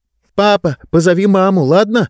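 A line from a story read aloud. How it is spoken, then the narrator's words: Shout. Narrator (Russian): прокричала она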